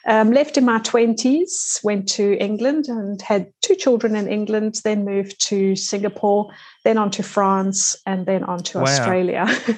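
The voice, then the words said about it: South African accent. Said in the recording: “As the accent might show, I'm South African”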